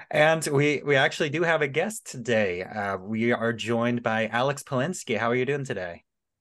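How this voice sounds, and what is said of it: Slightly off, sick-sounding voice. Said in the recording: “A little under the weather. My voice might sound a little bit off ... sick voice”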